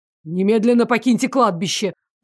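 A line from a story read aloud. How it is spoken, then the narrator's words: Menacing command. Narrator (Russian): приказал королевский маг и грозно усмехнулся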